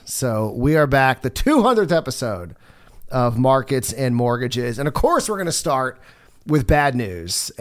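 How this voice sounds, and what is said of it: Slightly ill, not-quite-right voice. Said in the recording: “I'm not 100% yet ... You can kind of hear it in my voice. Maybe I'm just that much ... So my voice is not 100%”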